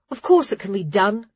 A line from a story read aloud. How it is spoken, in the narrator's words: Clara snorted